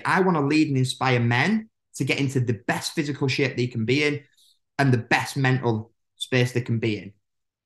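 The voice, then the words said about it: Very fast, enthusiastic speech. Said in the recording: “I'm talking so fast and with so much enthusiasm now”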